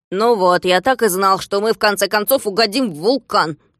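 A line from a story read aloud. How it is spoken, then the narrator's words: Grumbled. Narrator (Russian): проворчал Пончик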